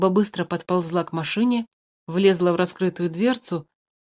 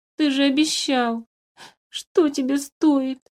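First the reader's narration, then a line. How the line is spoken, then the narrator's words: Sobbing. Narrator (Russian): Он всхлипнул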